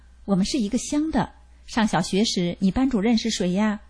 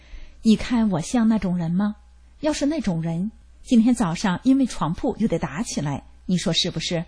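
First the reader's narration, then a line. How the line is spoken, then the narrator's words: Sighing question. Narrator (Chinese): 我长叹了一口气，问了一句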